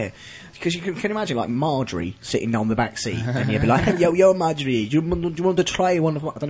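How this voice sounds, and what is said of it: Usual voice. Nothing is said of it.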